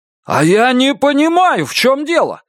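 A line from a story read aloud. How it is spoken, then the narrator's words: Shouting. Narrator (Russian): закричал Лестер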